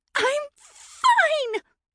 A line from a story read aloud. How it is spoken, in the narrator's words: she shrieked